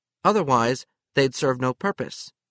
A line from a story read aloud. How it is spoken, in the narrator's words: Mary said